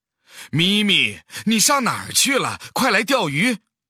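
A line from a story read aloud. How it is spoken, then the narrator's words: Mother calling out loudly. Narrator (Chinese): 猫妈妈看到猫弟弟跑得老远，就喊他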